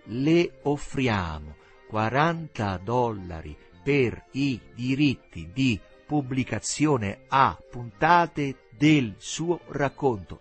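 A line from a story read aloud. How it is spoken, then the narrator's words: Slow speech. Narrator (Italian): Teresa pronunciava lentamente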